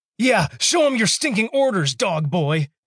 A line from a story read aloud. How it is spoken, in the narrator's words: exclaimed, twitching and squirming